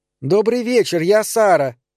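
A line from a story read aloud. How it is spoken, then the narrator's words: Shouting over screams. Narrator (Russian): прокричала она на итальянском, чтобы перекрыть вопли дочери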